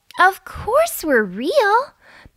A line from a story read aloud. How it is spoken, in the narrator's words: the unicorn giggled